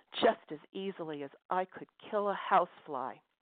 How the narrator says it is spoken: she told him in a vicious tone of voice

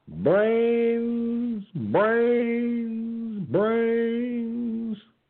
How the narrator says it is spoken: the man hollered out

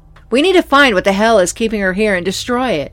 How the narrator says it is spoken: I shouted at Elizabeth

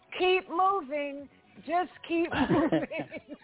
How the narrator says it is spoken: laughing and say

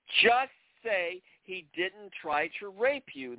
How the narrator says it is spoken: screamed in her face once again

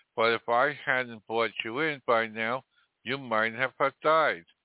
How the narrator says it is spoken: she cried

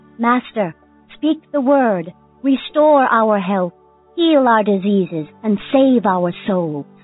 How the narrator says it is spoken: A voice from the front yard exclaimed

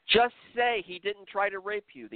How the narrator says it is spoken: the interrogator screamed once again

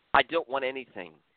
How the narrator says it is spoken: Rahane calmly answered

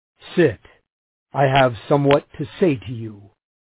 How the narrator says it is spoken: he said

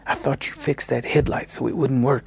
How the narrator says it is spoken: I hissed, trying to hold my breath between sentences

